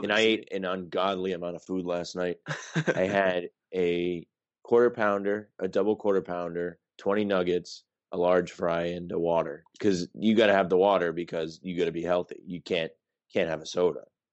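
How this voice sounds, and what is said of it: Slightly hoarse voice. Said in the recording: “My voice is even a little odd... horse... From all the screaming and celebrating.”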